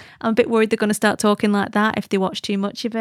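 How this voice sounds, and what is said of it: Usual voice. Nothing is said of it.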